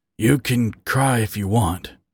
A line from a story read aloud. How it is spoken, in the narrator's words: Harry whispered